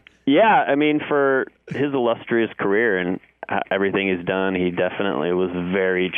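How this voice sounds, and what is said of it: Usual voice. Nothing is said of it.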